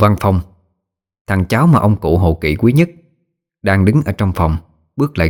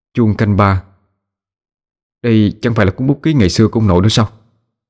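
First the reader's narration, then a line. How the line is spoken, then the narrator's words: Troubled, sighing. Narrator (Vietnamese): Bác cả thở dài mà lòng lắm mối tơ vò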